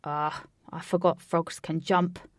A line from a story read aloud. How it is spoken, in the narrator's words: said Alec bitterly